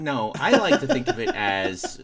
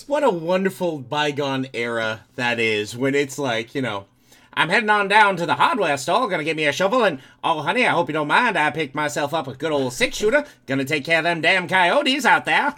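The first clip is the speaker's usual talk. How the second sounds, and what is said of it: Old-timey announcer doing Texas accent. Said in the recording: “You sound like a 1930s New Yorker trying to do a Texas accent ... a 1920s radio announcer”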